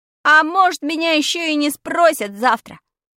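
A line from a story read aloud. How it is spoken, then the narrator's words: Shouted after her. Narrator (Russian): крикнул я ей вдогонку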